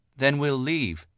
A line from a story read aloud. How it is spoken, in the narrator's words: Ladere said